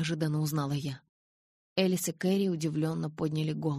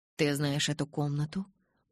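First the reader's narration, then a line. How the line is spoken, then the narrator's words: Calm but anxious voice. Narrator (Russian): Голос Хейла звучал спокойно, но мне показалось, что он волнуется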